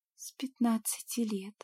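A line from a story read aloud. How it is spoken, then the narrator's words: Genuinely anxious whisper. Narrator (Russian): прошептала я в ответ, уже не играя волнения, а проживая его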